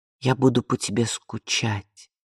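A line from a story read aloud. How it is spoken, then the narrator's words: Quiet reply. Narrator (Russian): тихо ответила Изабель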